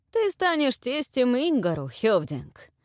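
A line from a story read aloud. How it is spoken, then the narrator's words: Pleased booming laughter. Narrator (Russian): Барди довольно захохотал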